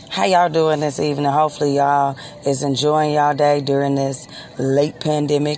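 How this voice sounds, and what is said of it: Slightly hoarse voice. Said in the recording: “I'm a little hoarse because I've been out in this air”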